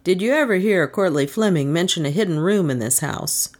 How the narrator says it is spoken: his reply was coolly made

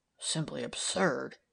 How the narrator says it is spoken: he murmured

